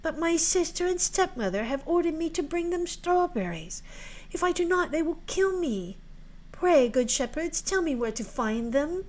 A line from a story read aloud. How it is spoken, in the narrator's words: said the girl sadly